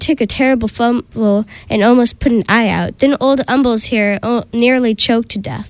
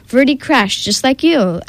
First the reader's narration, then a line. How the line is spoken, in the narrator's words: Aggie replied